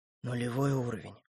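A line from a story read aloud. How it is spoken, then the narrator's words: Whispered. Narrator (Russian): прошептал он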